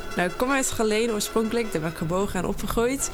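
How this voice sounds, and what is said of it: Limburg Dutch accent, soft G. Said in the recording (Dutch): “Ja, ik heb wel een accent. ... hoort iedereen denk ik wel direct. ... de zachte G.”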